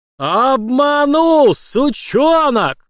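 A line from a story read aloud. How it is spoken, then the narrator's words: Furious roar. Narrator (Russian): взревел в сердца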